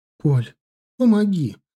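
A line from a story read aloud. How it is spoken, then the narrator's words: Sudden pleading. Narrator (Russian): вдруг взмолилась Ирина Викторовна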